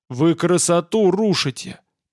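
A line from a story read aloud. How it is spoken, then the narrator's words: Growl. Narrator (Russian): прорычал Олаф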